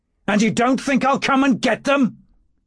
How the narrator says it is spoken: he shouted upward

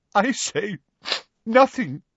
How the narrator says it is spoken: she choked

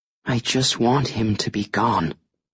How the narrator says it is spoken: Evelyn says, her voice tight and small like a child's

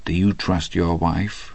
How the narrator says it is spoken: he said very softly to Hadley

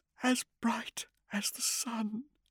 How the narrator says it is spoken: Cyrene whispered, crying now

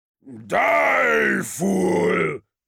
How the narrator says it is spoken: roared Kul

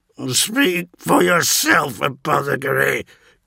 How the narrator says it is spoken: grunted Verosian

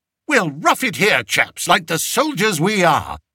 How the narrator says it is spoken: he cried to his party

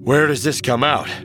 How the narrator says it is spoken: Han panted

